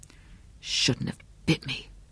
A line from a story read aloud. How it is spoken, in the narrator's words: Greg whispered